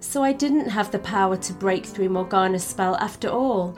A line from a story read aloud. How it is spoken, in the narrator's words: she said quietly, shivering at the realization of the risk she had just taken